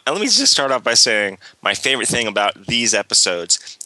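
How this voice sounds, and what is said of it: Slightly congested voice. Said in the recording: “my voice is a little off. I'm coming out of a cold”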